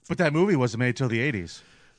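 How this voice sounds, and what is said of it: Imitates another person's voice. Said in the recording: “my Patrick Michael impression”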